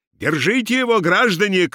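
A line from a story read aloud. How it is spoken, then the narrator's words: Shouted. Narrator (Russian): крикнул он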